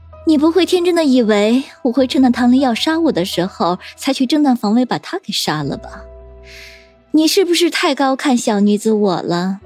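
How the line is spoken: Sneering. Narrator (Chinese): 叶心雨又冷笑道

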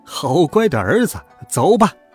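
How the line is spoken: Laughing. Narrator (Chinese): 孙悟空笑道

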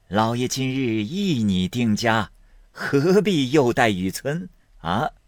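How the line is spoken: Laughing. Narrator (Chinese): 贾政笑道

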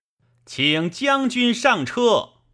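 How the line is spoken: Loud shout. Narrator (Chinese): 袁绍……于宫门外大叫曰

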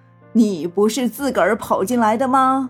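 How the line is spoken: Laughing merrily. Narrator (Chinese): 爷爷则嘻嘻哈哈的笑

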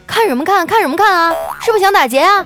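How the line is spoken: Defiant. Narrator (Chinese): 后面的人也不甘示弱，他说

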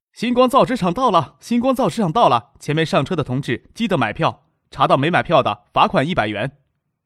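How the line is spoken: Loud station announcement. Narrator (Chinese): 前面售票员大声的报站名

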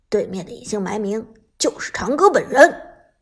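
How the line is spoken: Deep, low voice. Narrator (Chinese): 阿豪沉声说道

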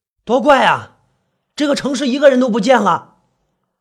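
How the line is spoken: Loud. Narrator (Chinese): 大声对他说

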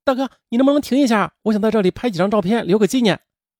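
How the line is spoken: Sudden call. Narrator (Chinese): 魏莹突然叫道

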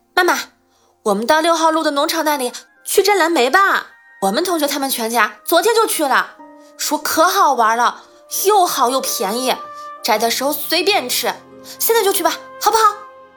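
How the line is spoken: Shouting. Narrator (Chinese): 英子就嚷起来了

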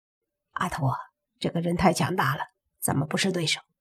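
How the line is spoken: Quiet, low voice. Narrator (Chinese): 胖子小声对阿图说

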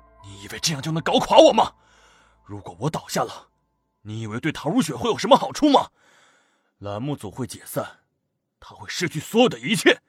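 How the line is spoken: Frantic low roar. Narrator (Chinese): 李东岳 疯狂低吼

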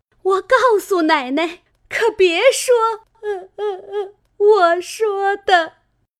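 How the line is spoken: Frightened maid, tearful pleading. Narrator (Chinese): 吓得那丫头一行躲，一行哭求道

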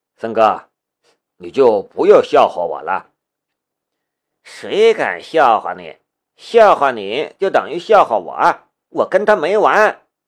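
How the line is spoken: Laughing. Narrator (Chinese): 夏雷也笑着说道

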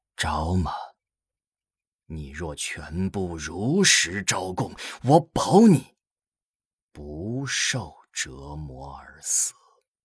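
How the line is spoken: Sudden soft voice. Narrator (Chinese): 莫国五人突然柔声道

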